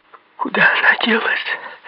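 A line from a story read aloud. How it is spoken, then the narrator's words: Frightened, trembling question. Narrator (Russian): дрожащим голосом спросила перепуганная Элен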